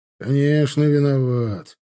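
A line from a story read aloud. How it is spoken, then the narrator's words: Grumble. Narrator (Russian): проворчал тот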